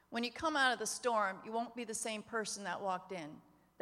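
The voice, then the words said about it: Emotional voice. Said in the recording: “I don't know why I'm getting emotional all of a sudden”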